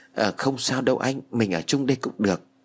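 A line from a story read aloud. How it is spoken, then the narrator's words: Flustered, soft. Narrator (Vietnamese): Sau một hồi bối rối, Mỹ Lan liền khẽ nói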